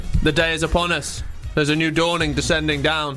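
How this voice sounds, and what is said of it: Put-on unidentified accent. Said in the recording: “What accent's that? ... Just an accent.”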